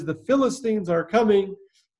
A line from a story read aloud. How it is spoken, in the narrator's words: she cries